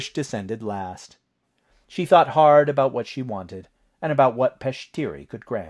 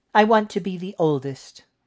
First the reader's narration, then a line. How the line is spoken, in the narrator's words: Trish said